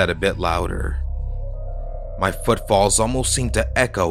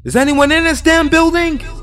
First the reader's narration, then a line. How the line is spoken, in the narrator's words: I screamed